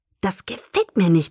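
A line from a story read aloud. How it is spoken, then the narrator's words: Hissing. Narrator (German): zischte Edward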